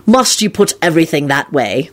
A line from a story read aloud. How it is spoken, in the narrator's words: Lupin responded crossly